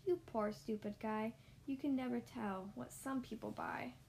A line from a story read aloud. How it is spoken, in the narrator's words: I laughed at the Lorax